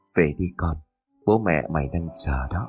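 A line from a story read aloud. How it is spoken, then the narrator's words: Soft whisper. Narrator (Vietnamese): Lão khẽ thì thầm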